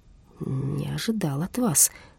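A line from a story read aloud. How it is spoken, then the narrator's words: Creaky voice. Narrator (Russian): проскрипел Хиппель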